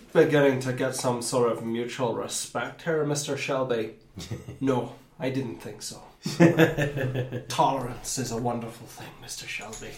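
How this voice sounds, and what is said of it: Northern Irish accent impression. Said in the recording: “He got the great Northern Irish accent.”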